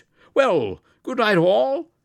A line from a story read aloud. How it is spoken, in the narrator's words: said cheerfully